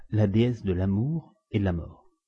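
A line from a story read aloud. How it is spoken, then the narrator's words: Murmuring. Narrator (French): murmura-t-il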